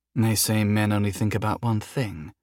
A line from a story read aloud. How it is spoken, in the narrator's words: she muttered